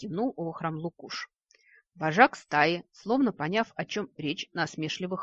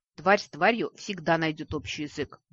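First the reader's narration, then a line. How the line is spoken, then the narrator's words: Muttered under breath. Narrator (Russian): буркнула под нос Ладиина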